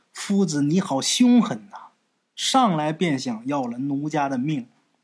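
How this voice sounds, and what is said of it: Coy, bashful female voice. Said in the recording (Chinese): “娇羞的说”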